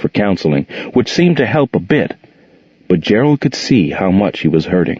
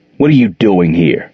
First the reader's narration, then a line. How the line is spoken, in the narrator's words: he growled at Jordan